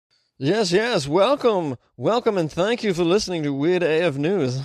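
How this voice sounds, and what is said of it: Annoying put-on accent. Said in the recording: “What is this accent you're doing? It's very, very annoying.”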